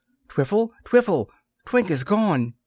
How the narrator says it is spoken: exclaimed Tom

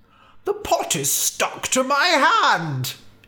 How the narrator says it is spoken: he cried

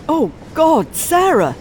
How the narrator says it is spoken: He exclaims

